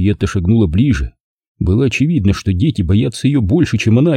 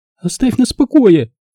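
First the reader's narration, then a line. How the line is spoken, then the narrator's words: Girl's shriek. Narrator (Russian): Взвизгнула старшая девочка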